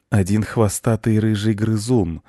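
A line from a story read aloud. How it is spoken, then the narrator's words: Cat, even more affectionate. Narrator (Russian): еще более ласково сказал кот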